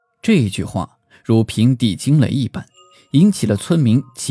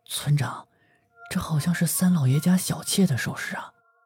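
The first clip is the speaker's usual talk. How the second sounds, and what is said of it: Quiet, hushed voice. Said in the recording (Chinese): “小声地对村长说”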